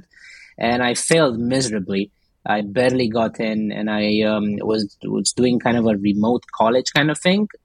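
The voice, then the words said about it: Romanian accent. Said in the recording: “back in Romania, where I'm from, if you can tell by the accent.”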